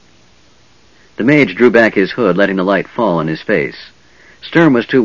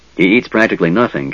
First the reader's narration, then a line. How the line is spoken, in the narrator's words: Caramon said in a worried tone